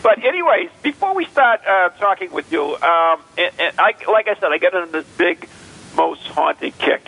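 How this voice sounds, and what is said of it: Noticeable non-local accent. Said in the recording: “It's my accent. I'm from not where you are.”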